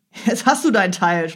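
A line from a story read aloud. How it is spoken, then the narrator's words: Laughing. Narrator (German): sprachen lachend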